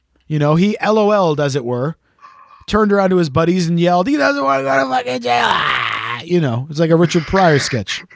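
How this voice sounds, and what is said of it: Canadian accent. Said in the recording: “my accent, which is Canadian”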